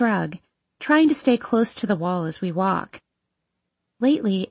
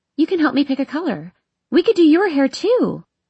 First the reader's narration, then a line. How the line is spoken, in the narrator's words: shouts